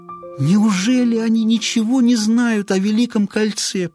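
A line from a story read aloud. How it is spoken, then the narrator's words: Near moan. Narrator (Russian): почти простонала Веда Конг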